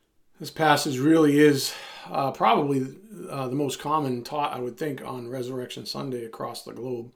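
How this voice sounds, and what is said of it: Raspy voice. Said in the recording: “I apologize about my voice. I went for an exercise run right before I recorded this, and my allergies are sort of spiked. So my apologies about my raspy voice.”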